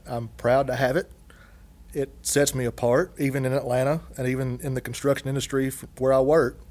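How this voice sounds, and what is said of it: Strong Southern American accent. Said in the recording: “I'm glad I have an accent. ... I like to think I've got a very elegant, cultured accent, like Shelby Foote, the historian on the Civil War documentary, it's more like Jethro Clampett or Gomer”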